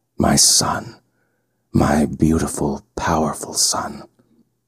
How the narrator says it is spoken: murmur

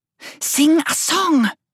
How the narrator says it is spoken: screamed

